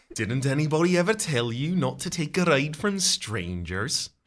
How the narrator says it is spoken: She hisses

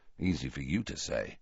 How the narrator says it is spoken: muttered Harry

